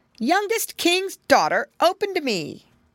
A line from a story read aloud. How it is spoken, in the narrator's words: cried